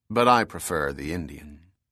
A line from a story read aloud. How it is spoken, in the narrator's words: Bell said calmly